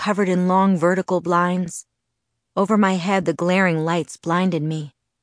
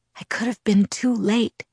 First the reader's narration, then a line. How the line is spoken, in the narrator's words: he whispered, his voice tormented